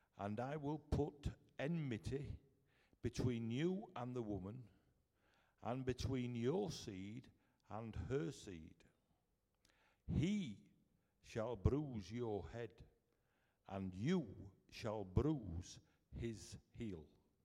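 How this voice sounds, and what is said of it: Strong Yorkshire accent. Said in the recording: “such a strong Yorkshire accent”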